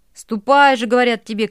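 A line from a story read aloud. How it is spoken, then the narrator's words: Crowd shouting. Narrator (Russian): кричали запорожцы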